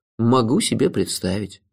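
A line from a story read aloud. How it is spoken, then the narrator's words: Sighed. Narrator (Russian): вздохнул я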